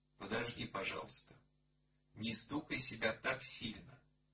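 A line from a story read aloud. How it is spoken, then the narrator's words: Plain. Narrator (Russian): сказала Лёлишна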